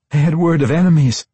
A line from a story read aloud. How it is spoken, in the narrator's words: Sarabel blurted